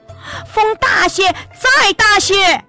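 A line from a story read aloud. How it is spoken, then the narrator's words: Impatient repeated shouting. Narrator (Chinese): 皇帝心急，嫌船驶得太慢，不停的大喊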